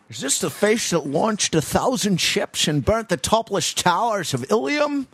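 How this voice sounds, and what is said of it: Bad impression of another person's voice. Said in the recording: “I sometimes do a bad Sean Connery impression.”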